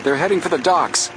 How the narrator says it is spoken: Joe shouted

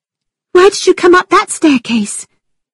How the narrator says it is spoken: Catherine cried

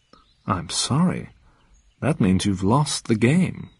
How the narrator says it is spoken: said Bond, softly

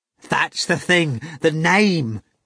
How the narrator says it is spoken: Ivan cried miserably

